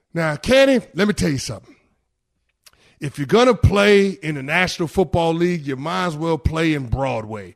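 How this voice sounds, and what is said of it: Weak Jerry Jones impression. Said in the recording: “that's about as good of an impression as I got for any which is the Jerry Jones. It's not very good at all.”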